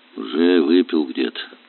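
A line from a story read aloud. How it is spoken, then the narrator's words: Calm. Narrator (Russian): спокойно сказал Горелов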